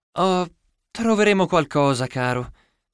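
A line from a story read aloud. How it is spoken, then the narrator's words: Sighed. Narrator (Italian): sospirò mia madre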